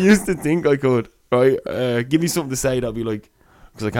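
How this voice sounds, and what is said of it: Usual voice. Nothing is said of it.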